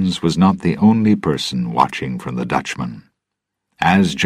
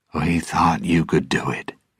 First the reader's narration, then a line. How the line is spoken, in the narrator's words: he said quietly